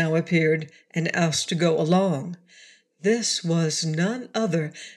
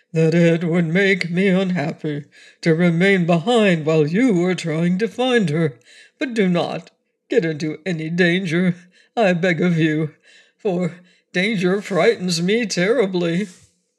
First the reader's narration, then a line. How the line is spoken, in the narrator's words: said the Cowardly Lion in his deep, rumbling voice